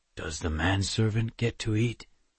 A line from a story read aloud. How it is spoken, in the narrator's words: Tanu mumbled with a small smile